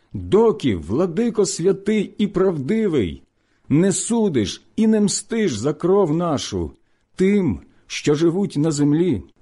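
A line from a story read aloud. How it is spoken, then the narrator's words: Loud crying chorus. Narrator (Ukrainian): закричали вони голосом великим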